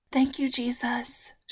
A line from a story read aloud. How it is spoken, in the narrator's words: breathed just before falling asleep